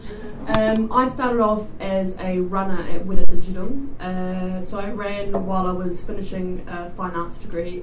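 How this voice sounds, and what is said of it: New Zealand accent. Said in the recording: “I'm from New Zealand, if you can't tell by my horrible, horrible accent.”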